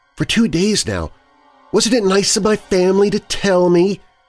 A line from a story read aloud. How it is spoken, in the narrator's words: Kayla angrily and sarcastically quipped